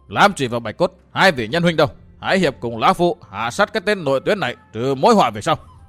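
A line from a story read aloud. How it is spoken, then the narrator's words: Raised voice. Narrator (Vietnamese): Lão cao giọng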